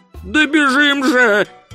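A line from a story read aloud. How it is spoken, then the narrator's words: Yelling. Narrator (Russian): завопил Ринсвинд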